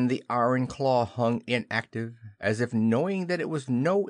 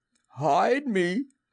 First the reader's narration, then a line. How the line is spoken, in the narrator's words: he cried hoarsely